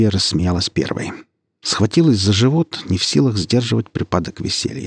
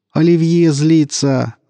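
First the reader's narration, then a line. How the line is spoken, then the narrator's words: Shouting. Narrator (Russian): закричал Крылов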